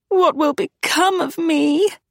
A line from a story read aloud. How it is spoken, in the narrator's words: Agatha whimpered